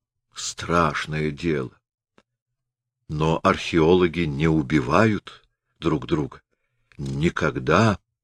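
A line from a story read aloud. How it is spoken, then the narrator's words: Muttered. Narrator (Russian): бормотал Шолд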